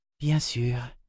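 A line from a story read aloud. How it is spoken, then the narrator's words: Whispered. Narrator (French): murmura Vivacia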